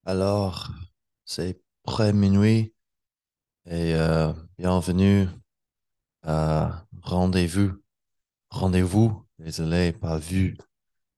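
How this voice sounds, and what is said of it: Non-native accent in French. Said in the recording (French): “mon accent c'est pas très bon”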